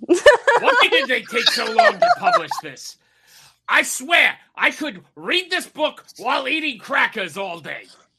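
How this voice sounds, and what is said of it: Imitates another person's voice. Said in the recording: “Do the voice ... as Gilbert Gottfried”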